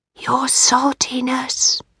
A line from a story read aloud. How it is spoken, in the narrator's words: he whispered